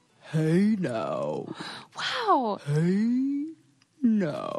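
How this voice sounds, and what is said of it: Very deep baritone voice. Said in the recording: “give me your deepest voice ... I'm a natural baritone”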